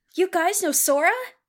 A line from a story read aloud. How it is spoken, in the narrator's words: She exclaimed